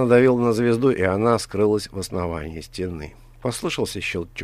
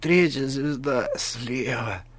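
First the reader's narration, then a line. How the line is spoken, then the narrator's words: Hoarse wheeze. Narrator (Russian): прохрипел правитель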